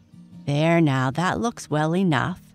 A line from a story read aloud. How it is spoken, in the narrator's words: said Sally in a comforting tone